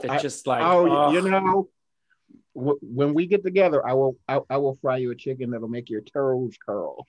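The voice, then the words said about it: Slight Southern American accent. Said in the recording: “I'm sensing a bit of a southern accent.”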